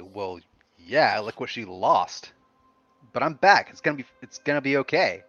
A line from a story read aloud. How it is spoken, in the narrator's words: scoff and say